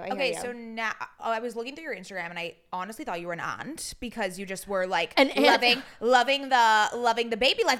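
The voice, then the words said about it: Accent, 'aunt' sounds like 'ad'. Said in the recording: “I also love your accent because I thought you just said ad”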